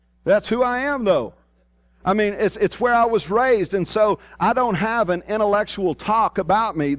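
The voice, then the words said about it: Strong rural Southern US accent. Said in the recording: “I was labeled when I was in the Army as ... I have this accent. I mean, my goodness, I sound like a hillbilly from Bago.”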